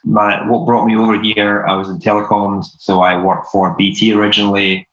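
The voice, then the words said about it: Scottish accent. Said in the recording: “my accent is not your typical American accent. I'm originally from Scotland.”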